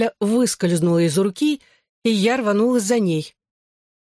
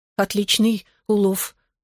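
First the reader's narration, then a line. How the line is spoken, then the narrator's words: Breathless exhale. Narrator (Russian): наконец выдохнула я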